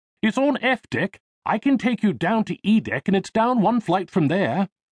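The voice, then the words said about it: English accent. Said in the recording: “he replied in an English accent.”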